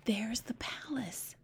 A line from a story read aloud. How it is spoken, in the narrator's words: Sophia whispered back